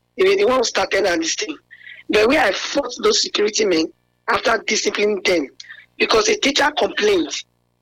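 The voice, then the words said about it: Hoarse, weakened voice. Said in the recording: “You can see my voice is down”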